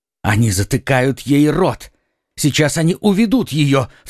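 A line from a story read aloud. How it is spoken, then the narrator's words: Alarmed cry. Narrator (Russian): вскрикнул Д'Артаньян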